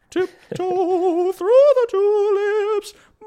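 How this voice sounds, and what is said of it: High-pitched falsetto singing. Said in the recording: “it's like Tiny Tim ... It is kind of high pitched ... I got a solid falsetto”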